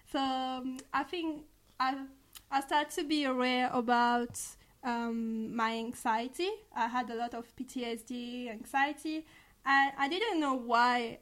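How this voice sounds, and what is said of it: Speaks with a foreign accent. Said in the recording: “I love your accent ... Don't you love her accent,”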